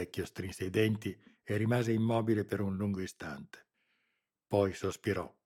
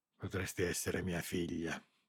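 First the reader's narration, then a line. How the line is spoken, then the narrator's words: Barely audible murmur. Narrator (Italian): lo sentì mormorare Lara, distinguendo appena le parole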